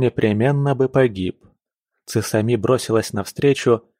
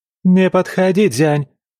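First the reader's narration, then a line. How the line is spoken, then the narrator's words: Shout. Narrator (Russian): крикнула Тайши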